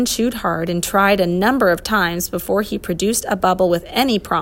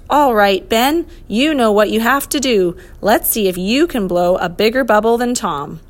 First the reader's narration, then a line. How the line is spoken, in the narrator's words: The professor called out